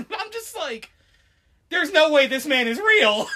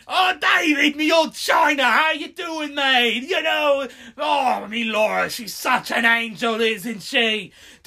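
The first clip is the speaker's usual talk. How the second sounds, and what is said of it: Cartoonish British accent. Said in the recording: “this guy sounds like a right cartoon. Like, he has, like, the British accent”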